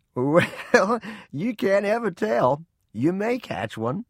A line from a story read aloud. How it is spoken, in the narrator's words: He laughed and said